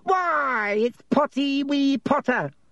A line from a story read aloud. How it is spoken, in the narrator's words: cackled Peeves